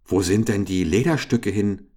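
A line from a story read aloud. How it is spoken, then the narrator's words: Sudden call. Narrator (German): rief da Richard plötzlich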